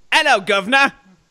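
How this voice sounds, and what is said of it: Put-on British accent. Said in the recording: “I have a British accent.”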